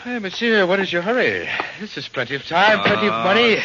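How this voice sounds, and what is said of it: Put-on foreign accent. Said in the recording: “You don't have to put on that accent.”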